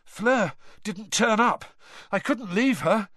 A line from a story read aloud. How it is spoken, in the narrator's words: Harry panted